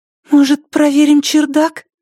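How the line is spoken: Startling sudden voice. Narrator (Russian): Голос испугал меня так, что я едва не вскрикнул

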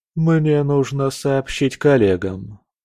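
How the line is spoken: Sighing. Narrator (Russian): вздохнула

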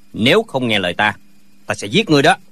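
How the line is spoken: Shouted threat. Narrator (Vietnamese): lệnh Hồ Xung quát lên

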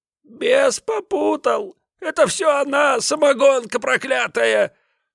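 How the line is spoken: Whiny old man excusing. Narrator (Russian): Плаксивым голосом оправдывался старик

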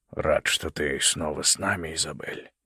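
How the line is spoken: Quiet. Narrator (Russian): тихо сказал Малкольм

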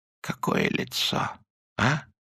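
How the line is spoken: Quiet. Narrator (Russian): тихо сказал академик

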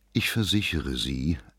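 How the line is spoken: Gentle reply. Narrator (German): erwiderte Lohmann sanft

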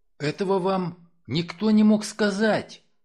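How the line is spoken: Child's admiring exclamation. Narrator (Russian): воскликнул мальчик скорее с восхищением, нежели с удивлением

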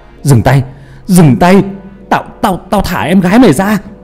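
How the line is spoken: Desperate shout. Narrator (Vietnamese): Hà thì lúc đó bỏ mặc sợ hãi mà hét lên

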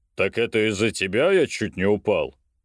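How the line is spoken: Portly man's bass. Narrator (Russian): спросил дородный мужчина басом

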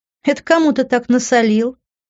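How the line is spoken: Laughing. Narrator (Russian): Рассмеявшись

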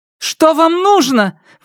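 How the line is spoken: Shouted out. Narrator (Russian): выкрикнула Энджи

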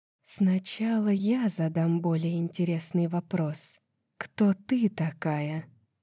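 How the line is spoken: Quiet. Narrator (Russian): тихо произнесла Лань

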